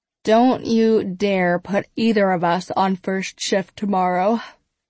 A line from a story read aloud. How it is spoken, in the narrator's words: Kate says with a yawn